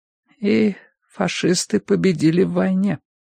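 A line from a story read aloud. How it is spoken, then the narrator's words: Muffled hollow voice. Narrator (Russian): глухо проговорила миссис Битнер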